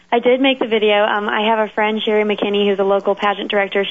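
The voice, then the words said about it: Sick-sounding voice. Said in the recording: “You might be able to tell by my voice I'm a little bit sick.”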